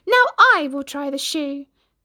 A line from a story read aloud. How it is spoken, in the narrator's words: sister number two, who yelled